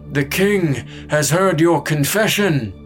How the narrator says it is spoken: boomed

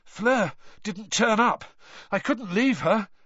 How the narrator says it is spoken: Harry panted

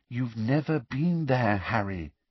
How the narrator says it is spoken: said Hermione quietly

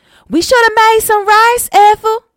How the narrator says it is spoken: Bethel shouted toward the house

